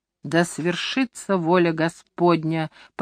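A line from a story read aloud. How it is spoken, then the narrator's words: Muttered through clenched teeth. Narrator (Russian): пробормотал я сквозь сжатые зубы, приготовляясь к смерти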